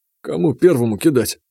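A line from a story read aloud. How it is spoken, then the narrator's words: Confused question. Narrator (Russian): растерянно спросил Бажен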